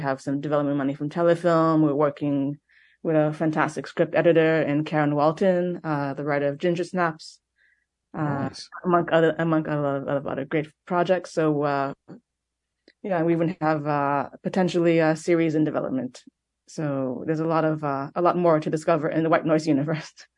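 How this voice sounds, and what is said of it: Mixed Montreal-influenced accent. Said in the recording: “has a very cool accent. ... I'm from Montreal, but my family is also Ukrainian and Austrian, so there's a mixture of a lot of different things going on.”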